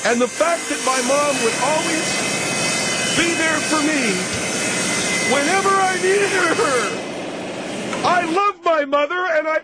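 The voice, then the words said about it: Yelling, screaming instead of tender. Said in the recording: “Why are you yelling? ... You're yelling, okay? It's supposed to be tender and beautiful ... And you're screaming? You sound like a freaking banshee.”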